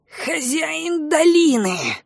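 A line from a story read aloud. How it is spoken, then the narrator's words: Hateful creature's hiss. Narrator (Russian): с ненавистью прошипела тварь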